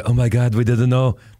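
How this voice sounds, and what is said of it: Mock French accent, Minnesota-tinged. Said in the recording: “a Minneapolis version of French accent... It's very foreign. Very foreign.”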